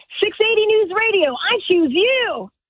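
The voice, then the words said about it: Ash Ketchum cartoon voice. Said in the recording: “the voice of Ash Ketchum on Pokemon ... they want me to do the voice”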